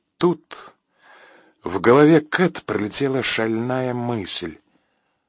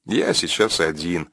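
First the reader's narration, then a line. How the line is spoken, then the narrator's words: Calm reply. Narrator (Russian): спокойно ответил Макс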